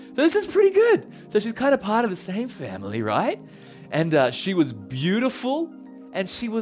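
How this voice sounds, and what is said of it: Usual voice. Nothing is said of it.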